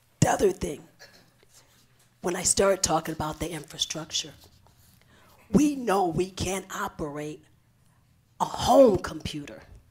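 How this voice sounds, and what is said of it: Strained, worn-out voice. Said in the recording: “that's probably where my voice is going, because I haven't stopped”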